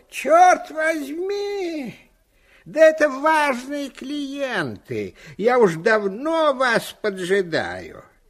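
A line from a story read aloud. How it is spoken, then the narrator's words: Shouting. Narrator (Russian): он закричал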